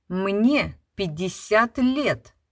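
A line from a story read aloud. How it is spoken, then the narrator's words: Stern, embarrassed. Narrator (Russian): строго сказал Гудбрехт и покраснел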